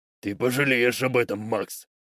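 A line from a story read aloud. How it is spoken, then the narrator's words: Growled. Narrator (Russian): прорычал он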